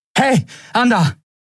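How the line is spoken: Called out. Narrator (German): rief Endriel

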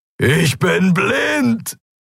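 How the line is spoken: Roaring. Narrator (German): brüllte er

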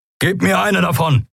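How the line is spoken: Called out. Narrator (German): rief Keru Endriel zu

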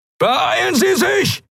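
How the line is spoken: Shouting. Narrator (German): schrie Helios in den Kubus

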